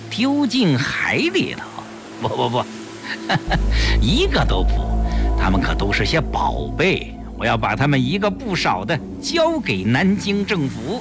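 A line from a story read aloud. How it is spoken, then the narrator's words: Strange laugh. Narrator (Chinese): 江世飞怪笑了一下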